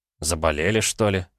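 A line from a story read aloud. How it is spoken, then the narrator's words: Snorting. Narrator (Russian): хмыкнул Петя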